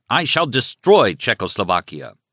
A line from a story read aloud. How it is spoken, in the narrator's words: he shouted angrily